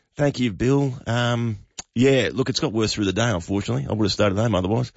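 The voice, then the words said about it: Sick, rough-sounding voice. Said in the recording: “you sound terrible. If my dog was that sick, I'd put it down ... you're sounding dusty, mate”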